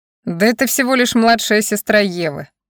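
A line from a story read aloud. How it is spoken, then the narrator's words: Laughing. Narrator (Russian): смеялся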